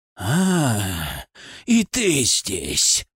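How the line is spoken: Growling. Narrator (Russian): прорычал он

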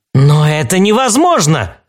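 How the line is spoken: Exclamation. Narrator (Russian): воскликнул четвертый, которого вообще-то звали Уильям

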